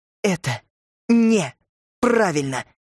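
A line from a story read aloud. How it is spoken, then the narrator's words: Through teeth, stressing each word. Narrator (Russian): Цедила она сквозь зубы, будто делая ударение на каждом слове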